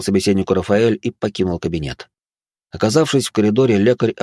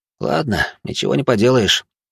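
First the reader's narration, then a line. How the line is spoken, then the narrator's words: Muttered under breath. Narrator (Russian): буркнул себе под нос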